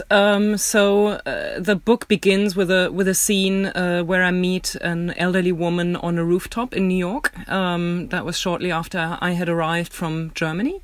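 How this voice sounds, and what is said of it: German accent in English. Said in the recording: “She immediately recognized my accent and knew that I am German.”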